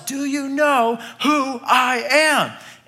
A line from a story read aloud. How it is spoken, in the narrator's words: yells